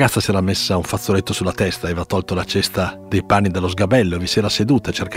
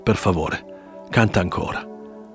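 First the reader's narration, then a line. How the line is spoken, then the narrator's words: Murmuring. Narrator (Italian): mormorò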